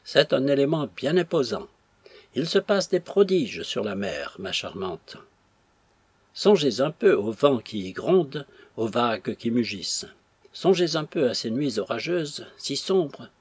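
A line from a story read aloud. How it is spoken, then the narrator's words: Respectful tone. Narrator (French): dit le capitaine d'un ton respectueux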